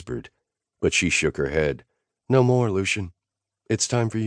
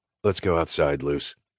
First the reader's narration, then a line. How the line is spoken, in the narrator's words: Nash said in his cop voice